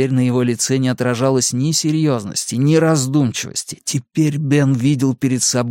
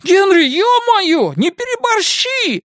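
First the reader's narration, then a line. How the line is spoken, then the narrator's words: Shouted. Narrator (Russian): крикнул рыгало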